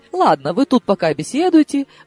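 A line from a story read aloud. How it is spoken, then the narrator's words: Curt toss-off. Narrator (Russian): бросил он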